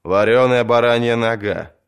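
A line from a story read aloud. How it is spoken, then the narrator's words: Reluctant mumble. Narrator (Russian): неохотно пробурчал Маландр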